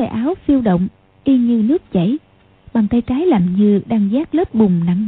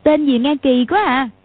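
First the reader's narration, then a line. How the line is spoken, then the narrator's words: Laughing exclamation. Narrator (Vietnamese): Chu Bá Thông và Quách Tường cùng cười, kêu lên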